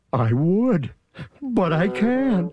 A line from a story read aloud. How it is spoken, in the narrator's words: sobbed poor Thidwick